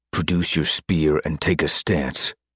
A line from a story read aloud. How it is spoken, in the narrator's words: Randedly, doing his best Shaw impression, lowered his voice and growled